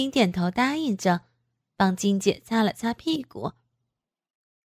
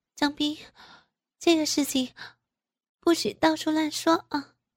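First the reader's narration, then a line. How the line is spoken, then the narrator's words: Breathless speech. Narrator (Chinese): 金姐 喘着气儿说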